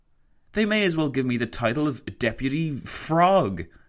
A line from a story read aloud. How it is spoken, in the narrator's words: he exclaimed to Roosevelt